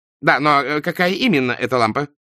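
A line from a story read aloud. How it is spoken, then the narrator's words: Hurried question. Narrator (Russian): торопливо спросил Джин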